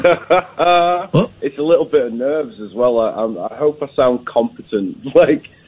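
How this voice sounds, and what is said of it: Northern English accent. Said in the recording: “you sound northern.”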